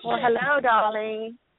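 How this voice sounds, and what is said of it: Put-on accent. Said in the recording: “I love that accent.”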